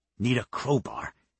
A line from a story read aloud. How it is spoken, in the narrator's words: Dime muttered